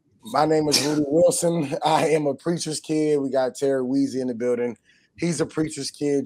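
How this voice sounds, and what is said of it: Hoarse voice. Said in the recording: “I apologize for my hoarse voice. I'm not even really sure why I'm this hoarse, but I woke up like this”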